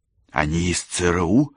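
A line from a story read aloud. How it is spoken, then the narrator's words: Loud whisper. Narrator (Russian): громким шепотом спросила Кэсси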